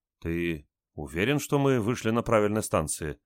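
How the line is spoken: Confused question. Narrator (Russian): растерянно спросила Валя

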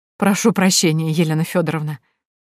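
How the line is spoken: Breathy exhale. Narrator (Russian): выдохнул Сергей

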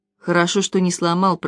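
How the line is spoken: Mutter. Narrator (Russian): пробормотал капитан

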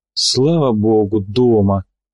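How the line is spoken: Relieved sigh. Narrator (Russian): облегченно вздохнул Томский

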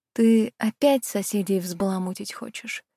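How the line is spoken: Sighing. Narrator (Russian): Вздохнула я

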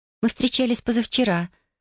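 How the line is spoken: Quiet. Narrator (Russian): тихо объяснила она

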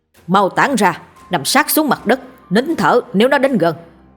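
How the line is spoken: Loud shout. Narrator (Vietnamese): Sư phụ hét lớn

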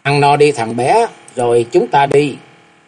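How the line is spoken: Smiling old man. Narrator (Vietnamese): ông mỉm cười và nói

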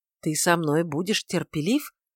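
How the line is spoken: Irritable mutter. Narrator (Russian): пробормотал Варавва раздражительно

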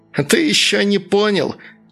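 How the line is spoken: Furious shrieking. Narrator (Russian): взвизгивало разъяренное тело

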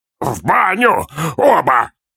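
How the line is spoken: Barked, old man. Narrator (Russian): рявкнул дед

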